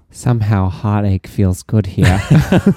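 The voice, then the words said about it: Imitates another person's accent. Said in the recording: “I hope you enjoyed my attempt at her accent.”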